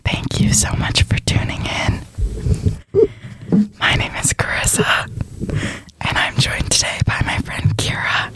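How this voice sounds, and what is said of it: Whispering voice. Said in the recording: “listen back to my voice whispering the whole time”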